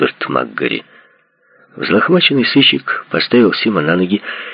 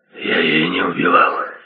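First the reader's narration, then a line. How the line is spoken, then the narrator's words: Weak voice. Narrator (Russian): сказал Сим слабым голосом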